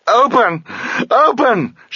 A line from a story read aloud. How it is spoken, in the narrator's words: she screamed